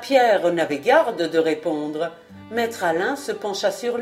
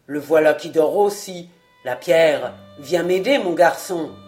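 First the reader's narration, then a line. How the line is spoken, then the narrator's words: Growling. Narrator (French): gronda-t-il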